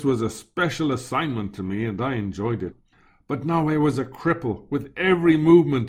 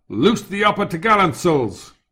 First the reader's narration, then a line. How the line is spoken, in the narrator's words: the voice of the second mate boomed out